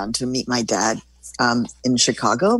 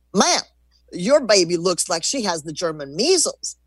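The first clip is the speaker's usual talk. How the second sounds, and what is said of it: Put-on thick Texas accent. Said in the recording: “I'm going to imitate a Texas accent ... he said in a thick Texas accent”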